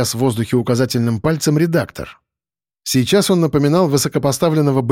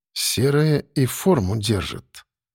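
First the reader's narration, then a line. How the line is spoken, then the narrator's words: Thoughtful muttering. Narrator (Russian): задумчиво пробормотал я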